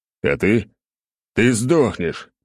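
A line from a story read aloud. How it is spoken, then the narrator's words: Growling. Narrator (Russian): рычал я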